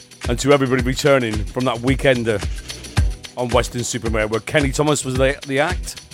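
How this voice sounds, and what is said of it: Hoarse voice. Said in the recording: “I might sound a bit hoarse. That's because I am.”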